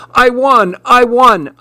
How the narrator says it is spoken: I shouted

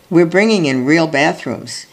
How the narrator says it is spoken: he says

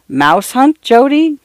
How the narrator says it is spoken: Grandfather chuckled

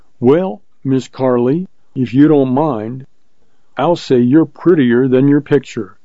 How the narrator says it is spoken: said Hutter

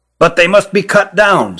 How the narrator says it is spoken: said Ruggum

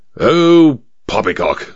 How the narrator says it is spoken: snorted the major

